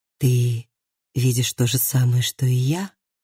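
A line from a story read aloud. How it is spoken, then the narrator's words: Whisper. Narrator (Russian): прошептала Лив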